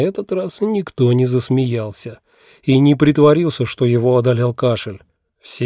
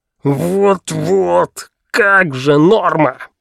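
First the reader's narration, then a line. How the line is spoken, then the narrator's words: Growled. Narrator (Russian): прорычал Пелхим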